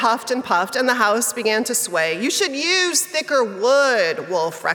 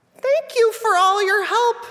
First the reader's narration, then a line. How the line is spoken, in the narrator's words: squeaked the three little pigs